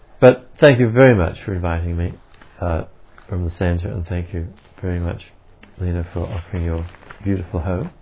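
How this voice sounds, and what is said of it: Australian accent. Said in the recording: “the boring old Australian accent”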